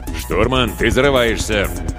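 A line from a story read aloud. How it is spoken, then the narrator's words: Mock-stern growl. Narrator (Russian): С напускной суровостью рыкнул Виктор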